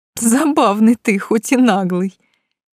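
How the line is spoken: After laughing, concluding. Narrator (Russian): заключила, отсмеявшись

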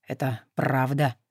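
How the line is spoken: Lifeless voice, asking. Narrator (Russian): мертвым голосом спросил Александр

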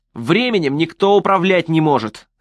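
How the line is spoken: Shouting. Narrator (Russian): закричал Престон

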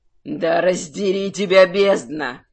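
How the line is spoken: Angry growl. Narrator (Russian): зарычал от такого зрелища архимаг

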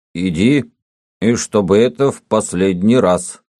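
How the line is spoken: Choking slightly, stern but magnanimous. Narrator (Russian): сказал еще чуть-чуть давясь, грозно, но великодушно

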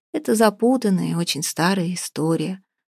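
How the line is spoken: Sighing. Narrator (Russian): вздохнул Михаил

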